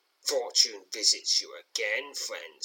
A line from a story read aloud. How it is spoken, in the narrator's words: snarls Trelock